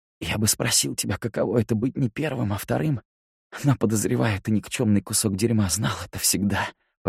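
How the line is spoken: Hoarse rasp. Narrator (Russian): прохрипел

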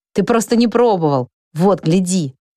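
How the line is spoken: Shouting to the sky. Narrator (Russian): крикнул в небесную синь

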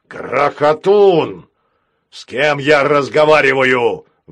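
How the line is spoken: Thunderous roar. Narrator (Russian): взревел капитан так, что планета содрогнулась

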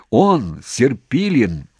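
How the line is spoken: Commander shouting gladly, phone. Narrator (Russian): обрадованно крикнул в телефон командующий

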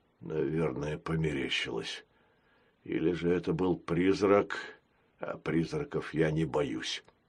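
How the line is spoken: Muttering. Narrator (Russian): пробормотал он

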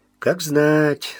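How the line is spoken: Dry. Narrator (Russian): сухо сказал Мазур

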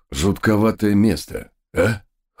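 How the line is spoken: Snorting, amused. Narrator (Russian): хмыкнул один из догов

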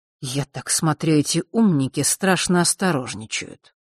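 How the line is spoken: Muttering to self. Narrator (Russian): пробормотал он как бы для себя

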